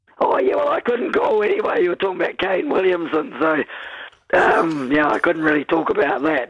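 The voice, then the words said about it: Hoarse voice from laryngitis. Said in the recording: “sorry about my laryngitis”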